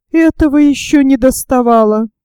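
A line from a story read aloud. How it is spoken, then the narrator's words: Groaning woman passenger. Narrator (Russian): простонала пассажирка в темном углу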